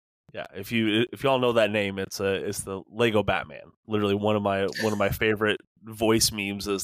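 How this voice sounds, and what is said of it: Usual voice. Nothing is said of it.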